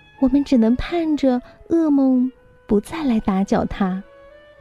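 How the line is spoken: Queen sighing mournfully. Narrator (Chinese): 王后唉声叹气的说

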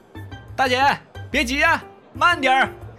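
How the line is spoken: Amused teasing shout. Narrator (Chinese): 眼瞅着大姐的窘态，凤耀不由得乐了，还故意在身后喊道

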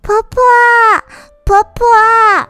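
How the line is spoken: Calling out. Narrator (Chinese): 宝珠喊了一声

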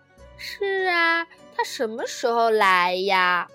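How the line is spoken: Sighing. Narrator (Chinese): 玛塔叹了一口气

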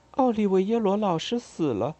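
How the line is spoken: Quiet. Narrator (Chinese): 我小声说

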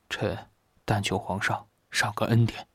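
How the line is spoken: Weak, soft. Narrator (Chinese): 周子舒像是力气不济一样的轻声说道

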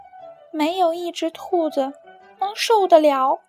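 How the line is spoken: Sighing. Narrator (Chinese): 兔子先生叹着气说

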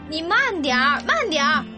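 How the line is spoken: Persistent shouting. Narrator (Chinese): 叶芝一个劲儿的喊

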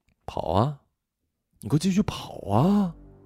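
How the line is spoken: Low, menacing. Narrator (Chinese): 他压低声音，凶恶地说

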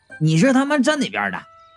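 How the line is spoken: Angry. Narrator (Chinese): 我愤怒的

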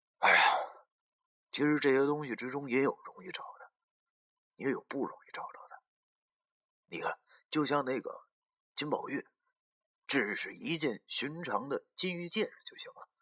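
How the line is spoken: Sighing. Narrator (Chinese): 石觉明叹了口气，对我俩说道

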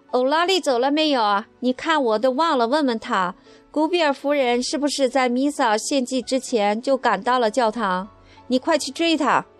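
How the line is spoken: Loud shout. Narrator (Chinese): 我的姨妈大声喊道

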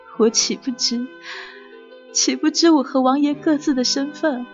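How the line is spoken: Pained, choking on tears. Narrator (Chinese): 红菱痛苦的……掉下两行清泪，哽咽道

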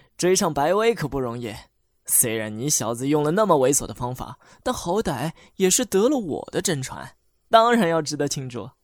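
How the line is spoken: Laughing. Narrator (Chinese): 老周笑着对我和白薇说

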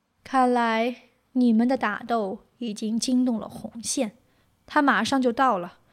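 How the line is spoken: Slow, measured. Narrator (Chinese): 柳毅缓缓说道

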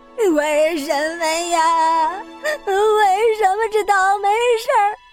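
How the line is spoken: Wailing loudly. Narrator (Chinese): 这对贝了的打击实在是太大了，他嚎啕大哭起来

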